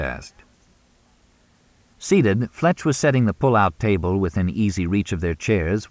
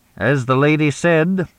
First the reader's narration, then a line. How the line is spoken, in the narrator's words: intoned Frederick Mooney with a cold look at his daughter